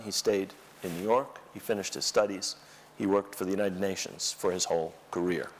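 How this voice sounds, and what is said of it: American accent. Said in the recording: “I have a perfect American accent”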